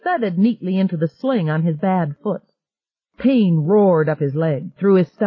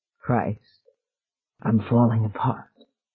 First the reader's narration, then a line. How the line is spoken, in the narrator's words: he whispered